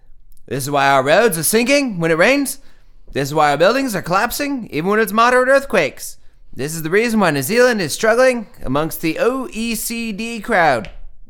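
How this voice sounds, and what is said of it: Poor imitation New Zealand accent. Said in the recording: “let me pretend this is a New Zealander being mad ... My accent's horrible”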